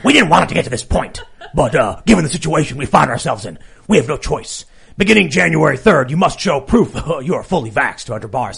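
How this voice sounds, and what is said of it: Imitates another person's voice. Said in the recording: “I should read it like Lori Lightfoot, because she's Beetlejuice ... she talks like this ... That's a good impression ... I don't know if I'm doing a good Michael Keaton”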